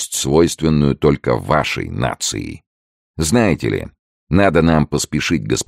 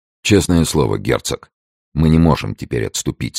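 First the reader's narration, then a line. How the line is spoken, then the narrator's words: Plain. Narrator (Russian): сказал Девард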